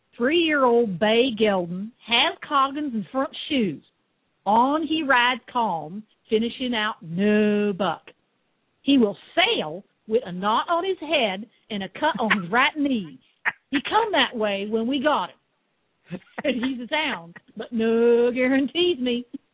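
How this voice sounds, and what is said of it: Put-on Southern accent. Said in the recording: “you got to read this in a Southern accent. This has got to be Southern accent.”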